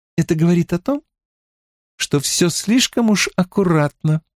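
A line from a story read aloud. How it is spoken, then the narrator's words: Calm, level reply. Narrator (Russian): спокойно, не повышая тона, отвечала Элейн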